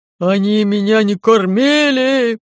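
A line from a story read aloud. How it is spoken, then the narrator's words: Very loud wailing. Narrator (Russian): так громко взвыл Лаёв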